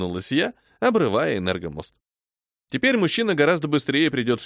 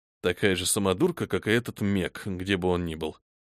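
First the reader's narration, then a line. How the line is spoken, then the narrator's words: Displeased grumble. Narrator (Russian): недовольно пробурчал Титсон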